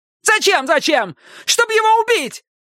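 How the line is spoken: Shouted. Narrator (Russian): крикнула Пиппа

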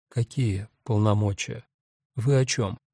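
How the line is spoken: Dejected question. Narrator (Russian): Только спросила упавшим голосом

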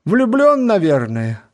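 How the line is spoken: Exclaimed. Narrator (Russian): воскликнула леди Нарбора

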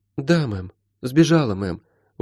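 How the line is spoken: Glum. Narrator (Russian): уныло кивнула Молли

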